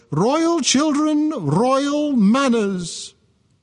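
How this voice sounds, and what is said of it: Imitating Queen Victoria's voice. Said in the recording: “I don't know if this was quite her accent, but this is the way I feel she spoke”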